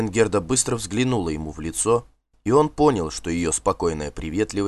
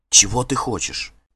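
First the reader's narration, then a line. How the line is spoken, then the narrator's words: Hurried anxious whisper. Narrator (Russian): Торопливо и тревожно зашептала она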